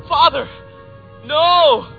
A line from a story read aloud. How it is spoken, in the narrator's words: The feeble young man raised his eyes and shouted